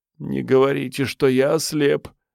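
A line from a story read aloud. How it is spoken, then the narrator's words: Moaning. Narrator (Russian): простонал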